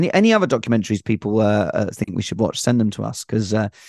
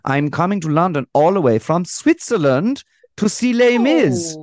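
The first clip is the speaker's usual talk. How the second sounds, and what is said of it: Put-on Swiss accent. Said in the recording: “Alex, the accent will make sense in a second ... What a perfect Swiss accent I'm doing.”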